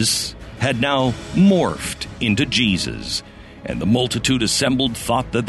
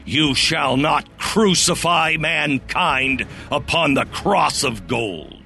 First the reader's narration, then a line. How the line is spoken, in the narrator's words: took a deep breath and bellowed